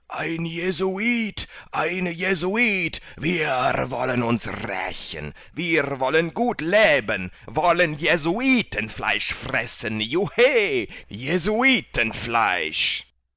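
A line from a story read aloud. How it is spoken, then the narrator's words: Crowd shouting. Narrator (German): alle schrien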